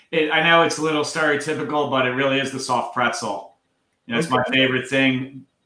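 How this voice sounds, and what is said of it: Strong Philadelphia accent. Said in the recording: “your accent is pretty strong. It's on the stronger side”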